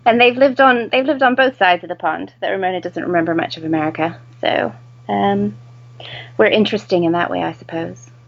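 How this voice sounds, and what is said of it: American accent, not British. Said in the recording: “as you can tell from my ridiculous accent, I am not British ... Britican or Americish”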